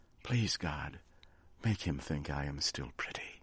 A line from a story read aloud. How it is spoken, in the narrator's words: she whispered